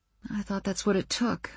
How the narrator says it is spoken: I mumbled, feeling my cheeks heat up

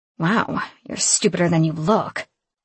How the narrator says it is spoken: Shay spat

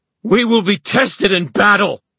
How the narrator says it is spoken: Horace screamed

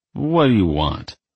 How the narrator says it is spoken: he asked, only slurring his words a bit

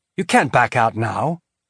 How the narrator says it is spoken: Holden said, trying to keep his voice calm and professional against the rising panic he felt

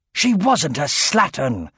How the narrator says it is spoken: roared Aragorn

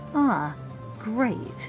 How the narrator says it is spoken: Ashby sighed under his breath

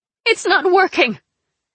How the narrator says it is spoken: Zoya hollered

